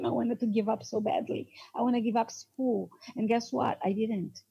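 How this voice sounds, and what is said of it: South American Hispanic accent. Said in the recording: “I'm from South America, I'm considered Hispanic. I do have an accent.”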